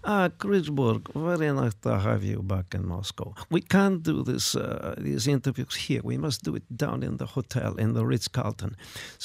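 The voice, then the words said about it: Put-on Russian accent. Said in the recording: “If you were doing any other accent in the world right now, I'd be saying, "No, stop, don't do it." But I think we kind of have a free pass on Russia at the moment.”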